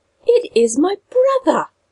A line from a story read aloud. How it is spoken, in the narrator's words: cried at last